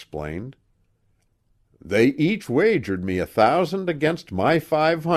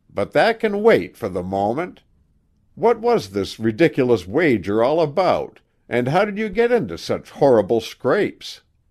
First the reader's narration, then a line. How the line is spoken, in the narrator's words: Aunt Emmy remarked dryly, adding